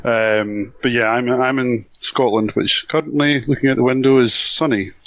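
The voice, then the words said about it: Slight Glasgow Scottish accent. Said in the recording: “I've got a bit of a Glasgow accent”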